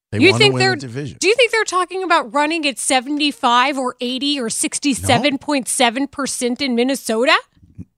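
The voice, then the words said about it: Put-on Minnesota accent. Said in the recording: “That was very good. I said, look, you hear that Minnesota accent?”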